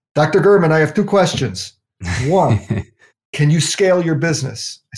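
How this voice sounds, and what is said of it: Heavy Swiss accent. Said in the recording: “somebody in Switzerland in a heavy accent.”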